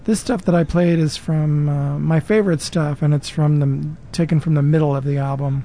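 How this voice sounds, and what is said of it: Worn-out, thrashed late-night voice. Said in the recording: “I find my voice is pretty thrashed at this hour, 2:26 in the morning”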